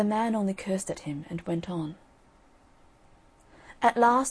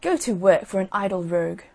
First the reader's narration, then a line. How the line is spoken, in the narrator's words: one of them said crossly